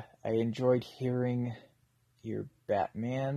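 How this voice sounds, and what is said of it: Usual voice. Nothing is said of it.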